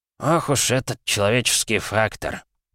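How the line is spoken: Grumbling. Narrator (Russian): проворчал Витаутович

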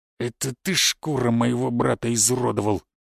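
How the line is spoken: Spiteful, through clenched teeth. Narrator (Russian): главарь злобно зыркнул и процедил

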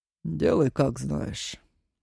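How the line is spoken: Gloomy permission. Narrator (Russian): мрачно разрешил Зураб

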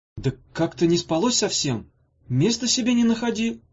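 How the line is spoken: Absent-minded, then crying out. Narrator (Russian): рассеянно начала Ирка и вдруг вскрикнула

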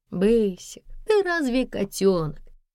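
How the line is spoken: Laughing. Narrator (Russian): рассмеялась Надежда

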